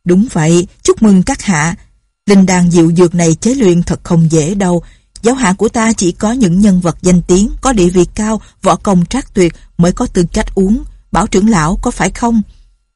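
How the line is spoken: Loud, giggling. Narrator (Vietnamese): Doanh Doanh cười khanh khách lớn tiếng nói

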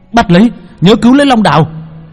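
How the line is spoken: Shouting. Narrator (Vietnamese): Hắn hét lên

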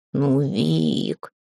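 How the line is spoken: Drawling. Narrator (Russian): протянул кот

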